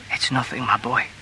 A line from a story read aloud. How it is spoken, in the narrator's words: she whispered